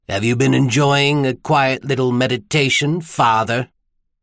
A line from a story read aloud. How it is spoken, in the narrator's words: His sneer turned the clerical title into an obscenity